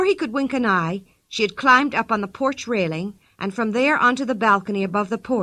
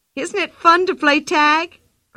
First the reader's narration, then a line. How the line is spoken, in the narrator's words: cried Pippi